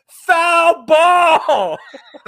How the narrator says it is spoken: she yells

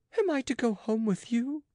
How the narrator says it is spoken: cried she, frightened

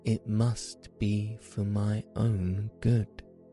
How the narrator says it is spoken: said Coco

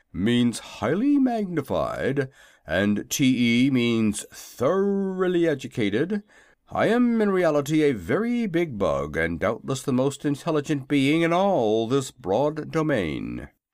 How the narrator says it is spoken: said the Wogglebug pompously

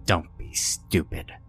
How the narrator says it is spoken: she snapped in a surprisingly stern tone

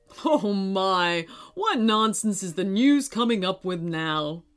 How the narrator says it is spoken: He said, chuckling to himself

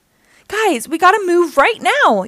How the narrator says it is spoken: yelled Donnie, as angry vendors chased them

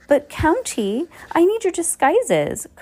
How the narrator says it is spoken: Carmelita whined

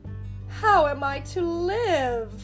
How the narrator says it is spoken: cried the poor lad

